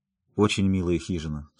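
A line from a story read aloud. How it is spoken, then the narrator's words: Serious tone. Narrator (Russian): сказала Мэри серьезным тоном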